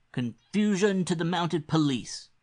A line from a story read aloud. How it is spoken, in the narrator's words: cried Bettles to the crash of the empty cups